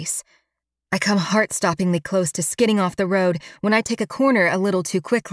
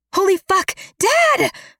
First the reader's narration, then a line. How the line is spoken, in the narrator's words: I scream